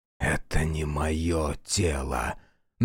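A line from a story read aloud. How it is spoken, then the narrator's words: Demon's mocking whisper. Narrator (Russian): насмешливо прошептал демон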